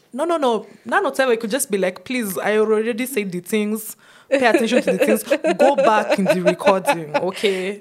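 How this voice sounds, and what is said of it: Put-on Nigerian accent. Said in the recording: “you have an Nigerian accent for the purpose of this section ... we don't sound like that ... you're channeling your inner Lagosian ... I'm actually channeling my inner Nollywood watcher”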